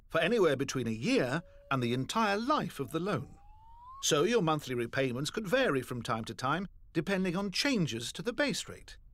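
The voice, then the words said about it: British or European accent. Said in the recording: “as you can hear by those accents, they're already offered in the UK and Europe”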